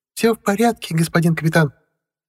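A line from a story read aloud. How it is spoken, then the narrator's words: Cheerful reply. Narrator (Russian): бодро отозвался Ростислав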